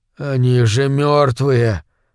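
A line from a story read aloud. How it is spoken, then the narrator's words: Forced out, strained. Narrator (Russian): наконец выдавил он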